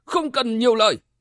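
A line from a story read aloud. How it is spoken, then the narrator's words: Loud angry shout. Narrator (Vietnamese): quát lớn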